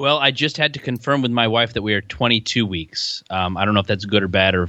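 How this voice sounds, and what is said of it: Usual voice. Nothing is said of it.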